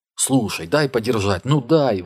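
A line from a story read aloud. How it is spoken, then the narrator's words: Breathless pleading. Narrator (Russian): выдохнул Сули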